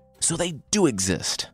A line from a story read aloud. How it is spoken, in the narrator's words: Sentaro blurted out